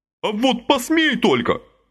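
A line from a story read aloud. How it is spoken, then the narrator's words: Yelled. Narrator (Russian): заорал Леша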